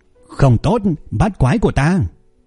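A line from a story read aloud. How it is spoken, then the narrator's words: Loud yell. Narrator (Vietnamese): Cung Nhị Cẩu hét lớn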